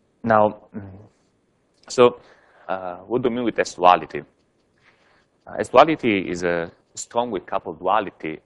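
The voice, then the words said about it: Strained, troubled voice. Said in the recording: “my voice is a little bit troubled this morning”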